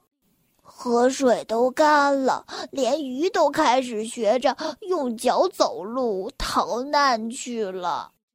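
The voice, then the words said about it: Weak, feeble voice. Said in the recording (Chinese): “用虚弱的声音说”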